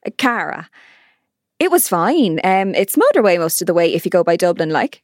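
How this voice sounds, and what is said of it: Irish Roscommon accent. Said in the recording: “So where's the accent from? Galway? Or the Midlands? ... No, Roscommon.”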